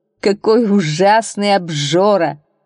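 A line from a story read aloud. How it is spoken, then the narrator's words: Laughing. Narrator (Russian): засмеялся судья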